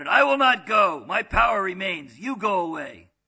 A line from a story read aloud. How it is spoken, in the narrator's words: The yogi shouted